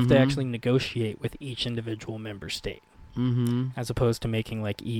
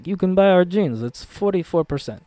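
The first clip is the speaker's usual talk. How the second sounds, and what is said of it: Bad put-on Eastern European accent. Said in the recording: “That sounded Eastern European, ... I'm terrible at accents. I'm the opposite of a master of accents. ... Sound like you wanted to come from Bucharest.”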